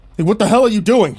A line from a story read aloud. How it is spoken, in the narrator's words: Boris yelled at him